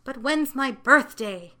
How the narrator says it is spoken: asked Dinsey impatiently

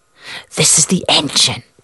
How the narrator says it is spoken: Kelly whispered

